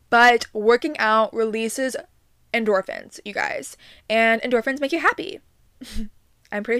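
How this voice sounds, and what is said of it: Usual voice. Nothing is said of it.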